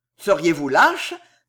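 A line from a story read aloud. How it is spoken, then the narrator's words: Contemptuous cry. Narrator (French): s'écria Villefort d'une voix méprisante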